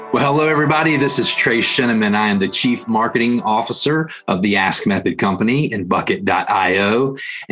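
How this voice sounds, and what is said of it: Central Tennessee Southern US accent. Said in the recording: “I'm here in Central Tennessee, if you can't tell by my accent”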